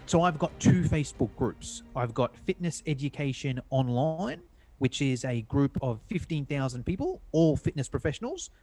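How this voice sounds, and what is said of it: Australian accent. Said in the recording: “from Sydney, Australia, as you may be able to tell from the accent”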